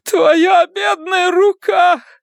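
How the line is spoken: Loud sobbing. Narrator (Russian): Она разразилась громогласными рыданиями

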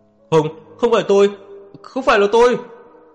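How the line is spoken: Agitated screaming. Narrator (Vietnamese): hắn ta đầy kích động, gào lên

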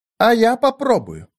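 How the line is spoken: Plain. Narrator (Russian): сказала Минерва

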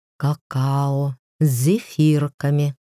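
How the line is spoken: Sly tempting whisper. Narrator (Russian): коварный искуситель прошептал

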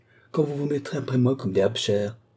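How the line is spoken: Overwhelmed exclamation. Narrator (French): s'écria-t-elle, qui ne sait plus à qui répondre

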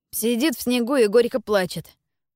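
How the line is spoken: Snort. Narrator (Russian): фыркнул Марко

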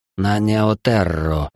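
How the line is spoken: Hoarse. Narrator (Russian): хрипло произнес Эл

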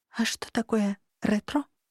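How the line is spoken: Whispered question. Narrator (Russian): шепотом спросила Лания

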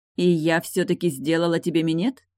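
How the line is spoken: Plain. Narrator (Russian): спросила она

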